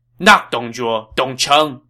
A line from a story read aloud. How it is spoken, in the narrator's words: Cao Cao shouted